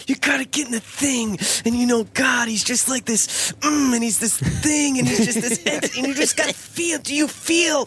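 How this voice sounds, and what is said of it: Imitates another person's voice. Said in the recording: “your Francis Chan impression ... It's so good ... that's pretty good, yeah.”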